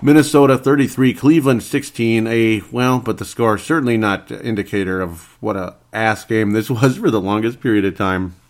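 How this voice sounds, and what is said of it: Voice slightly altered, recovering from cold. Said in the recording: “my voice is a little bit funky. I think it still is. I've been recovering from a cold ... there's always the lingering effects that alter your voice”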